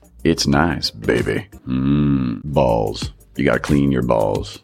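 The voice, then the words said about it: Sultry, seductive announcer voice. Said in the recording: “Sexy Voice Guy”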